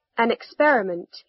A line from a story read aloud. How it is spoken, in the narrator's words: he said